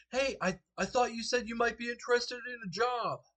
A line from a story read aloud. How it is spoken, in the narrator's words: He shouts over to you